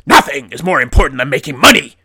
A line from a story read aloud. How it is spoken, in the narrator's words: Jonah snaps back